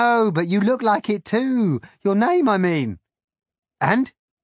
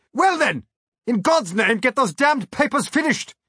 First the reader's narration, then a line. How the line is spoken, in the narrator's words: I barked